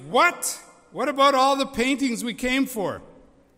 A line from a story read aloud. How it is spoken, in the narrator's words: somebody yelled from the audience